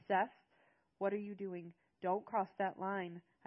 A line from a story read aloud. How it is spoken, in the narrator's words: gasped